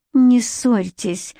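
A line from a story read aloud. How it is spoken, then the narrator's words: Weak pleading voice. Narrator (Russian): слабым голосом попросила Наоми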